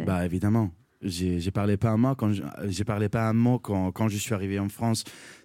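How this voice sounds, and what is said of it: Imperfect non-native French accent. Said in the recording (French): “mon accent n'est pas parfait”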